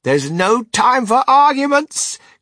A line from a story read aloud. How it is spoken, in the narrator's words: cried Mr